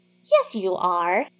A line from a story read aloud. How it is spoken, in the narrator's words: corrects cheerfully